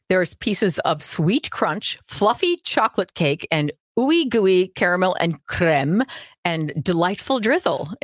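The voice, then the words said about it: Minnesota accent. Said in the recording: “I love your Minnesota accent. It's so on point.”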